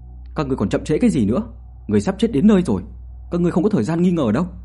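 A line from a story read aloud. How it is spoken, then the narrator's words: Loud shout. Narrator (Vietnamese): Tiểu Đào Hồng quát lớn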